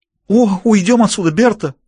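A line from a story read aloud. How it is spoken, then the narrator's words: Disgusted exclamation. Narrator (Russian): воскликнула Моника, не скрывая отвращения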